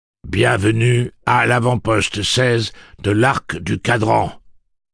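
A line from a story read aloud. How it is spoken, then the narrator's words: Booming recorded voice. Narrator (French): tonna la voix enregistrée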